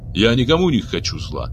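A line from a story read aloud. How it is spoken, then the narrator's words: Sharp reply. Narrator (Russian): резко ответил Абиш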